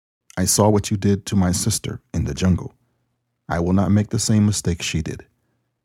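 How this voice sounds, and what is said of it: Slight Spanish accent. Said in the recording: “the girl said with a slight Spanish accent”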